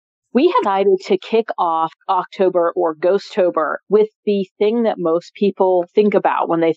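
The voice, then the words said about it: Sick, spooky-sounding voice. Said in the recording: “getting over a little bit of an early fall cold, so that's why my voice sounds like this... super spooky”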